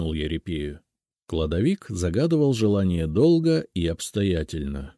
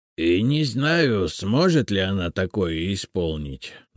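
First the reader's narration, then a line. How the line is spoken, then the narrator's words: Grumbling. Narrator (Russian): наконец проворчал он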